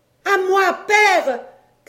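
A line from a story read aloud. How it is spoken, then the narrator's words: Shouted. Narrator (French): cria-t-elle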